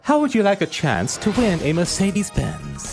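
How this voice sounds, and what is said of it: Put-on posh accent. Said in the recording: “What's up with the accent ... Just putting on a posh accent”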